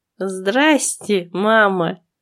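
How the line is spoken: Snide. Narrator (Russian): ехидно сказала я

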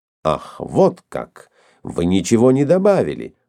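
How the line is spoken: Exclaimed. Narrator (Russian): воскликнул Келем

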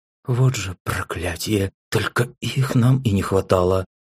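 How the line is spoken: Grumbling through teeth. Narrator (Russian): Ворчливо сквозь зубы прокомментировала появление подруг Мелинда

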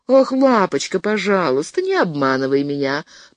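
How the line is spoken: Calm. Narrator (Russian): произнесла спокойно

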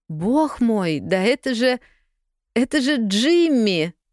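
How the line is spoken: Joyful, smiling. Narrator (Russian): расцвела она в улыбке, радостно

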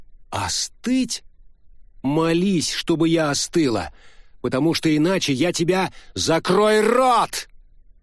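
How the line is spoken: Sudden angry bark. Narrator (Russian): Вдруг рявкнул Джа

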